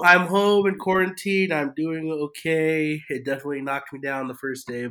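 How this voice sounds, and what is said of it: Voice sounds sick. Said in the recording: “why my voice sounds the way it does ... I got COVID.”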